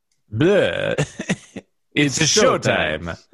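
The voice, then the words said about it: Dracula voice. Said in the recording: “now do it in a Dracula voice”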